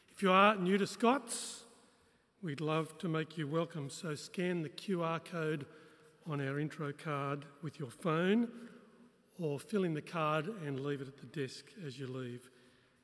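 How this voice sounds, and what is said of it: Croaky, hoarse voice. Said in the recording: “my voice is a little croaky this morning. I've been fighting off a bug through the week”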